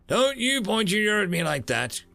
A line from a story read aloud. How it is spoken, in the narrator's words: she said, chuckling